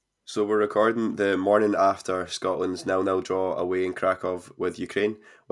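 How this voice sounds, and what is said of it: Congested, somewhat monotonous voice. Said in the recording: “struggling with a cold over the weekend and my voice may sound a little bit monotonous at times ... You sound a bit worse for wear”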